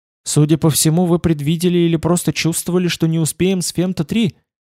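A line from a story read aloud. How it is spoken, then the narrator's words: Unusually respectful. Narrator (Russian): он сказал с непривычным для него почтением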